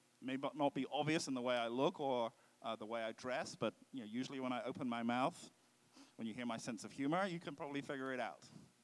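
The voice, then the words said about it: Foreign accent. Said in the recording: “You can hear from my funny accent... I'm a foreigner, I'm an immigrant”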